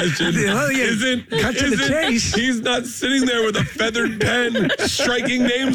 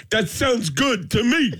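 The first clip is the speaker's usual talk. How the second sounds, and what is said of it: Imitates another person's voice. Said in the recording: “That's a great impression right there.”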